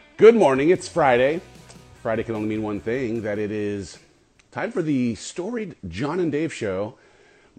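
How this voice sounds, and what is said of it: Slightly scratchy voice. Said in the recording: “My voice is a little scratchy today. ... A little allergy season here in Texas, and it's messing with me.”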